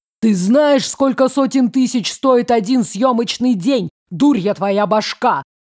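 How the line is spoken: Shouting. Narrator (Russian): кричал ЛМ

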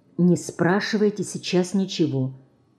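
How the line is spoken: Whispered. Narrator (Russian): Марина шепнула

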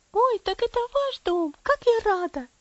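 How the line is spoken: Girl's excited exclamation. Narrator (Russian): воскликнула девочка

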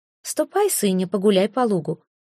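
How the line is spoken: Gentle command. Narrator (Russian): ласково приказала Эльга

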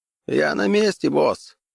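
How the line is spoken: Distant hoarse voice. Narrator (Russian): донесся хриплый голос Макхедена

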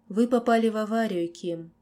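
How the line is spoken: Softly, doctor. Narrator (Russian): мягко произнес доктор

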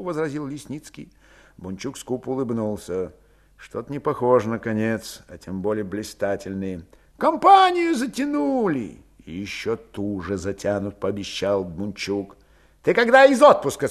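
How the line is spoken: Plain. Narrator (Russian): спросил Калмыков

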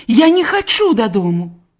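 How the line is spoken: Exclaimed. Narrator (Belarusian): усклікнула яна

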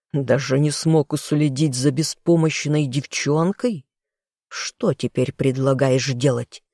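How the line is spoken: Furious hissing. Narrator (Russian): яростно шипел лорд

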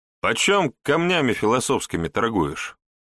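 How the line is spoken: Cheerful, slightly uneasy question. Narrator (Russian): весело поинтересовался Егор, хотя на самом деле ему было немного не по себе

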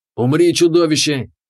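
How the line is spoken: Shouted. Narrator (Russian): выкрикнул он

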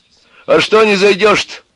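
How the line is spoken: Shouted from a distance. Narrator (Russian): крикнул Егору с крыльца

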